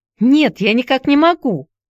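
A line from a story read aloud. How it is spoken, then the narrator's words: Shouted reply. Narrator (Russian): крикнула в ответ Хайди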